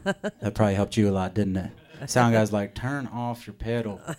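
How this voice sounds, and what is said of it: Put-on Southern accent. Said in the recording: “I don't know why I gave you such a southern accent. I just do. I do that for anyone.”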